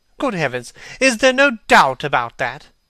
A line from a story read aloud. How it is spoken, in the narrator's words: cried Hallward, with an expression of horror